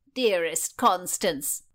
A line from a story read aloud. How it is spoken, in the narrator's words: cried the Countess